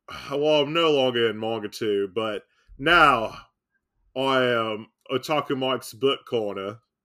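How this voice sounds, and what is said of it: Put-on Australian accent. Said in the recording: “Why do I have an Australian accent?”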